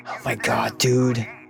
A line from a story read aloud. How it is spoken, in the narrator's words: sighed